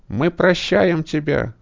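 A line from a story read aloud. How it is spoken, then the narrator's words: Loud yell. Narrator (Russian): завопил Пол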